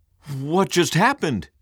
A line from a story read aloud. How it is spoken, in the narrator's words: cried